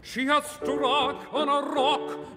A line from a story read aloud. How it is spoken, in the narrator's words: the seamen cried in the breath of their wild dismay